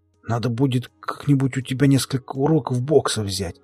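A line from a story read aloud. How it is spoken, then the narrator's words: Coughing, wheezing speech. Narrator (Russian): Закашлялся и потом, прихрипывая, произнес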